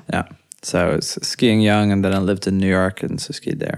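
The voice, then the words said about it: Irish accent. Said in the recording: “so why do you have an Irish accent then?”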